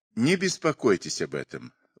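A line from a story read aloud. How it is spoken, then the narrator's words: Gentle reply. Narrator (Russian): ласково ответил Гитлер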